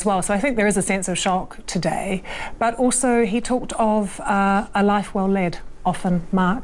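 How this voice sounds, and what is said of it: New Zealand accent. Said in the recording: “hearing you, hearing your New Zealand accent.”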